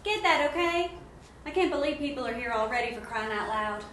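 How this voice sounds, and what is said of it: Feminine voice, thick Texas accent. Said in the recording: “A feminine voice with a thick Texas accent”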